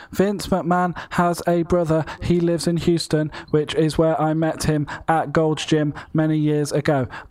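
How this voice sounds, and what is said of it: Childlike voice telling a tall tale. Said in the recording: “I'm going to change my Ryback impression, and I'm just going to read this like a child telling a tall tale.”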